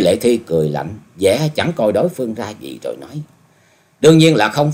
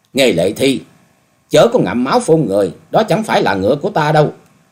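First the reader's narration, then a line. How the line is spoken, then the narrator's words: Raised-voice shout. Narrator (Vietnamese): Dịch Hương Trúc cao giọng quát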